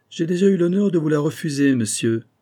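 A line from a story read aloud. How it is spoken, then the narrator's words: Curt interjection. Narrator (French): intervint sèchement le marquis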